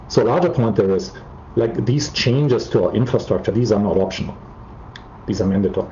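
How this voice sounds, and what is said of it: German accent in English. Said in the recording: “as you can probably tell by my accent, I'm from ... Germany”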